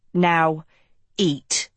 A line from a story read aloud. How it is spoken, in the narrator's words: he spat